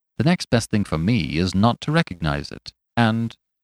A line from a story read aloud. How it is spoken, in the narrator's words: he added coolly